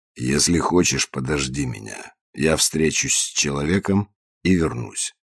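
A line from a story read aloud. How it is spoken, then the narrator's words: Insinuatingly suggested. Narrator (Russian): вкрадчиво предложил Санчес, не слишком рассчитывая на положительный ответ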